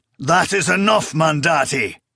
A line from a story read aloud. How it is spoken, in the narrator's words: Kemenketri roared